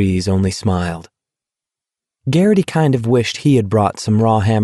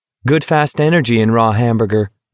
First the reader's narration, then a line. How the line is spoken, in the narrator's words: McVree said